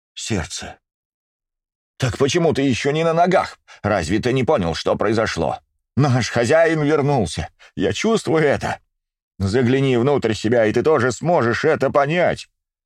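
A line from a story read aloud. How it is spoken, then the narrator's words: Near shout. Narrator (Russian): практически прокричал старший из ватахов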